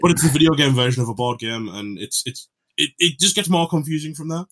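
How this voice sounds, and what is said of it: English accent. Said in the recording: “English accents”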